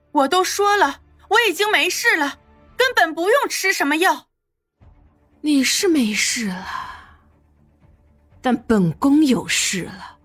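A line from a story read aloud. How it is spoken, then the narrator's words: Loud. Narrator (Chinese): 夏妙玲 大声说道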